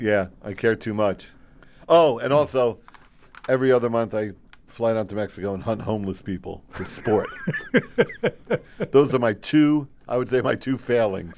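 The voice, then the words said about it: Imitates another person's voice. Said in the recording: “That's my impression of Sean.”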